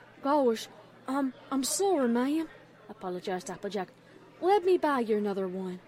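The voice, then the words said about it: Common-sounding rustic accent. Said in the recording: “What is that accent? It sounds so common.”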